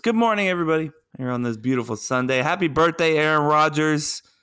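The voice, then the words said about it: Sleepy, drowsy-sounding voice. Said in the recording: “why does your voice sound like you're sleeping? ... This is my good morning voice.”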